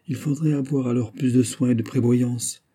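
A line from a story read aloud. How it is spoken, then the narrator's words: Stranger's gentle reply. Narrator (French): répliqua doucement l'étranger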